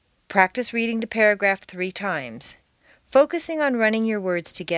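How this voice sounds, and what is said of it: Usual voice. Nothing is said of it.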